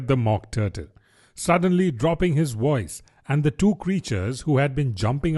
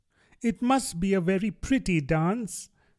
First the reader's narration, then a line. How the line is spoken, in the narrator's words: said Alice timidly